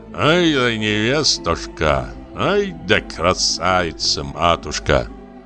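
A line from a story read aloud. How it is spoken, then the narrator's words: Old man mumbling tenderly. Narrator (Russian): старик только умилялся и бормотал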